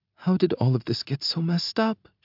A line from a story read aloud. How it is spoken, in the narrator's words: she whispers